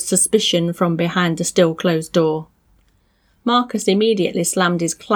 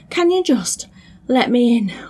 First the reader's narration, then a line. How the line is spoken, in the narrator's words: Marcus wheezed